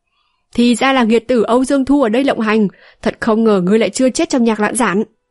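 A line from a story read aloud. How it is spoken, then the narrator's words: Sudden loud laughter. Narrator (Vietnamese): Đột nhiên có tiếng cười to vang lên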